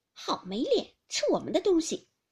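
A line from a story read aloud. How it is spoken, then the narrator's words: Laughing. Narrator (Chinese): 鸳鸯笑道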